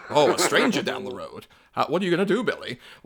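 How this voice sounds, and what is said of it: Old educational film narrator voice. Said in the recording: “You're doing that voice from now on this show. That is your voice now.”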